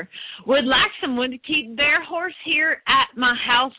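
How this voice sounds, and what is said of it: Put-on Southern American accent. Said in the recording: “you got to do this with a Southern accent.”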